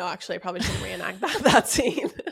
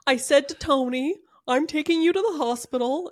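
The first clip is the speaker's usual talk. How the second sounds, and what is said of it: Imitates another person's voice. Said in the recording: “Your Gary impression is my favorite thing. ... It's really good.”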